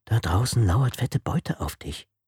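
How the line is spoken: Murmured into ear. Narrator (German): raunte die leichtsinnige Angela ihr ins Ohr

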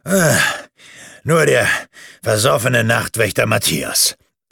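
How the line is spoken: Disappointed, panting. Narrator (German): sagte Bartholomäus enttäuscht und hielt keuchend

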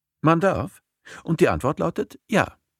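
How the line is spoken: Cheerful confirmation. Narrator (German): bestätigt Julian fröhlich

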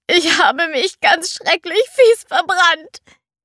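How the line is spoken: Whining. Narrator (German): jammerte Cinderella

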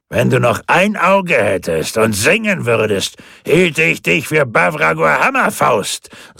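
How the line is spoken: Booming voice from behind. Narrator (German): sagte eine polternde Stimme hinter ihm

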